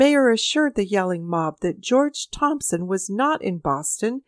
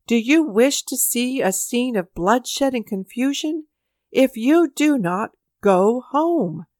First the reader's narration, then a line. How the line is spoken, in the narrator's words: exclaimed the mayor